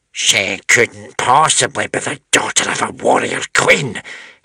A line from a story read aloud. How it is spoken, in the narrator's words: hissed the witch smeller